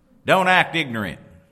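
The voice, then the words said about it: Mother's voice, slight Midwestern accent. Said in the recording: “coming from the Midwest where that's usually accompanied with a little bit of a a little bit of an accent.”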